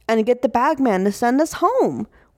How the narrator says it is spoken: Whit exclaims

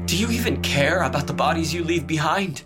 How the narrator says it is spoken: Lee spat

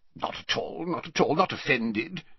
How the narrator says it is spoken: said Slughorn gruffly

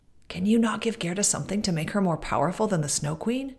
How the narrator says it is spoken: the reindeer whispered

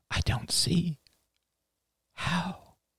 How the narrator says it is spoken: she whispered

